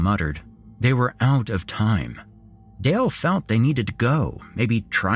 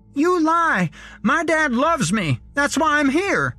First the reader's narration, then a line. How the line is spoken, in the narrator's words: he shouted